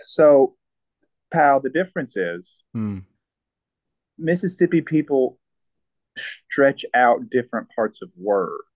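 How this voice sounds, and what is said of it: Southern US Tennessee accent. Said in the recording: “You sound distinctly more Mississippi than Texas to me, though. ... I actually don't have a Mississippi accent, pal. I have a Tennessee accent.”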